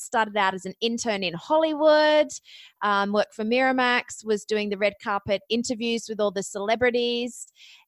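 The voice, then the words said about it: Australian accent. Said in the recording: “you might notice from my accent, I am actually Australian”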